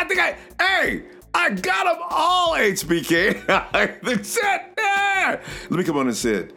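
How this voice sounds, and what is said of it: Usual voice. Nothing is said of it.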